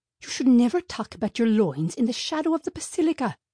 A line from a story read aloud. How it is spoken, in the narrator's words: whispered Mom